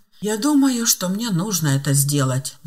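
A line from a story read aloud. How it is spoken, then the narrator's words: Sighing. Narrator (Russian): вздохнул Филипп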